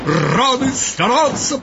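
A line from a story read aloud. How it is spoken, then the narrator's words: Soldiers shouting together. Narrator (Russian): прокричали солдаты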